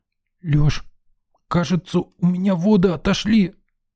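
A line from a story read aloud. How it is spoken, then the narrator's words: Hoarse, strained woman's voice. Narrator (Russian): просипела женщина сдавленным голосом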